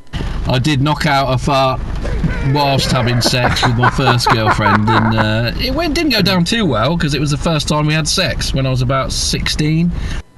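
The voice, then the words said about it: English accent. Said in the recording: “I don't know what part of England this accent is, but I could listen to this guy all day ... I love the guy's voice ... this guy's got a great accent.”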